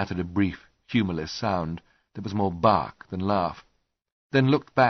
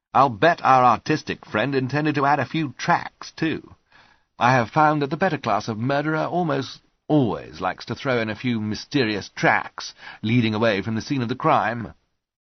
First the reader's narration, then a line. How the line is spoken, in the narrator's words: Holmes mused, and then added brightly